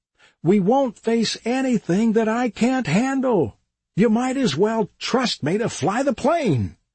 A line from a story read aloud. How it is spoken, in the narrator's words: shouted over the airplane noise